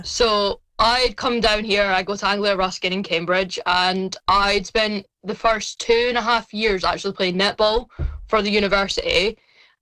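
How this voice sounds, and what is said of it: Scottish accent. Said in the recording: “I'm originally from Scotland, if you couldn't tell by the accent”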